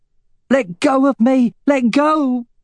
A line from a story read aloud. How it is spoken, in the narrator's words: shouted Katrina